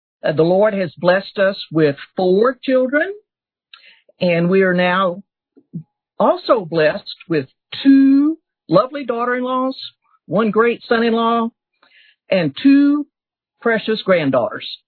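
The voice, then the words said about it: Southern Texas drawl. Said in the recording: “as you can probably tell by this southern drawl of mine, we've been, ra- we were raised in rural Texas”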